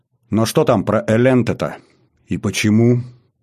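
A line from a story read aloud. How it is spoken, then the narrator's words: Hoarse question from a lord. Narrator (Russian): С хрипом в голосе спросил владыка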